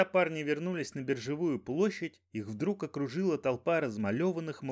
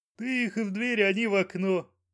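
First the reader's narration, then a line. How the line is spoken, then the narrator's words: Laughing. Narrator (Russian): засмеялся Рэй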